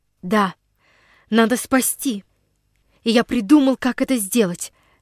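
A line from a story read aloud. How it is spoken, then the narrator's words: Determined. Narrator (Russian): решительным голосом подтвердил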